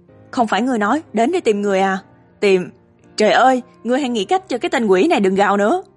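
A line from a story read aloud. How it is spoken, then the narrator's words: Roar. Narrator (Vietnamese): Văn Lão Bản gầm lên với Niên Đại Đại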